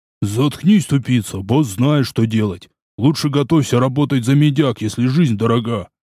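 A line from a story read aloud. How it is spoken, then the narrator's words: Deep bass voice. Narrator (Russian): пробасил босяк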